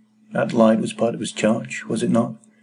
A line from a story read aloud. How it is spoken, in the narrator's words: he answered in a low voice